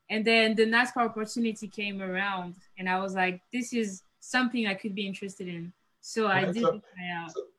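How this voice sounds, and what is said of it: French accent. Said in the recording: “I hear the accent. So you're from France.”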